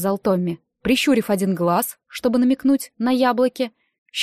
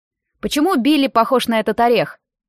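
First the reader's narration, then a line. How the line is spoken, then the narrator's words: Asked, maliciously joking. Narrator (Russian): спросил Эмиль, иногда шутивший очень зло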